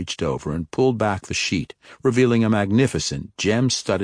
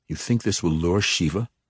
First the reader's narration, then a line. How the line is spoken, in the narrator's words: Zacnaphane asked, his tone revealing his skepticism